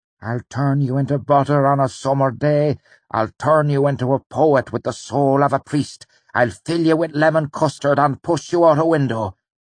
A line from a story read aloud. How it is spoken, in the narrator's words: he spat